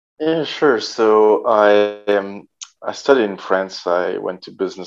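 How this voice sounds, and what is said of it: French accent. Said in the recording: “a Frenchman living in Spain ... underneath that French accent”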